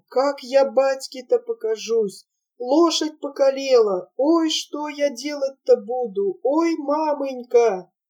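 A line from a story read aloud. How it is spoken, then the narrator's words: Whimpering. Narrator (Russian): Савоська все еще поскуливал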